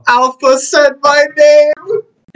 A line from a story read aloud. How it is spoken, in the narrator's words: My character screams out